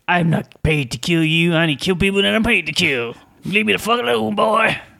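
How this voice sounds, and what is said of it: Richard Norton impression, Yosemite Sam-like drawl. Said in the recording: “He doesn't talk like that... You just totally got rid of his Australian accent... all of a sudden Yosemite Sam rocks up”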